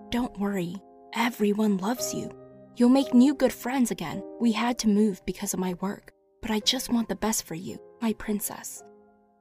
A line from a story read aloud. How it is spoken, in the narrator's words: said real softly